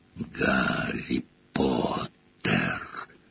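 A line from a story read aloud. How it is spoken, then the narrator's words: Whisper. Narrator (Russian): прошептало лицо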